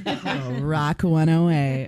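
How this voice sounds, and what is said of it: Radio announcer voice. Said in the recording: “Get my radio voice on.”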